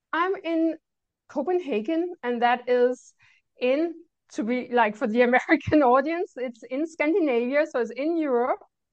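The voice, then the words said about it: Cute little foreign accent. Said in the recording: “She's got a beautiful, cute little accent”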